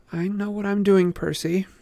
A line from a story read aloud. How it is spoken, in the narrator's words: she muttered